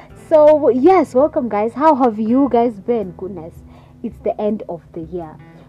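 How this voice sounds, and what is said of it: Very hoarse, sore voice. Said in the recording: “my voice is very hoarse and sore. Like, I'm having this terrible cough”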